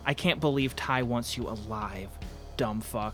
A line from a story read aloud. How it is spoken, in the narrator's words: a voice said